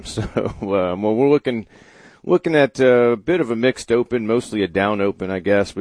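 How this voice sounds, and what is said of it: Hoarse, sore-throated voice. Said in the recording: “I've got a sore throat for the man. Not good for the radio or the podcast program.”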